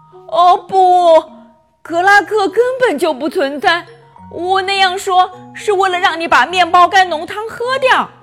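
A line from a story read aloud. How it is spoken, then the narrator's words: Tearful voice. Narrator (Chinese): 妈妈带着哭腔说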